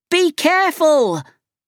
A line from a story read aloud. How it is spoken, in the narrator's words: cried Tintin